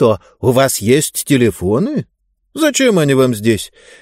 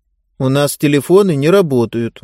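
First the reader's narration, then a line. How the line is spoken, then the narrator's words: Gloomy woman. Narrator (Russian): мрачно сказала Гиба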